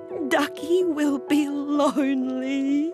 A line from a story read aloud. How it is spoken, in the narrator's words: Claudie sobbed